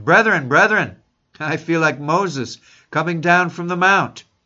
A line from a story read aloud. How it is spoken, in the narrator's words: Spurgeon exclaimed